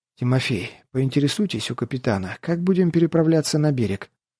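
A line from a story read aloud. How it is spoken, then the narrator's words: Terrified faint whisper. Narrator (Russian): буквально прошептал с восковым лицом и посиневшими губами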